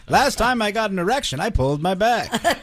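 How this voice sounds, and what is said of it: Old man voice. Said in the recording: “That's a good old man voice.”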